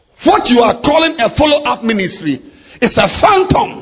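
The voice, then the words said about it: Shouting. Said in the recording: “I'm sorry I'm shouting... I don't know why I'm shouting.”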